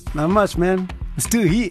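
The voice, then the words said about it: Put-on American accent. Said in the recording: “What's with the American accent?”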